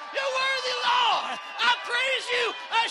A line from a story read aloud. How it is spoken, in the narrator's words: I shout glory